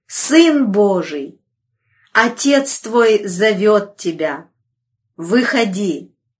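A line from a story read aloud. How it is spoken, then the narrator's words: Thunderous exclamation. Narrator (Russian): могущественный ангел воскликнул громовым голосом, заставившим содрогнуться землю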